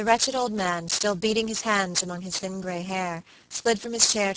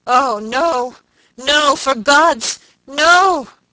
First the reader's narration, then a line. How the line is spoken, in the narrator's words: he shrieked hoarsely